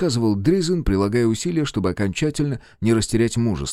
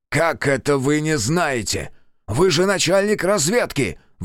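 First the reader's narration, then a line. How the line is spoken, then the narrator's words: Roar. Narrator (Russian): взревел я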